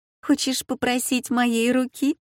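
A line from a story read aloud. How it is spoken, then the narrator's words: Asked laughing. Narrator (Russian): Жизана спросила, смеясь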